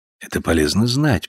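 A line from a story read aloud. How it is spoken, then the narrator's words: Whispering in ear. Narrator (Russian): прошептал ему на ухо Гольцбауэр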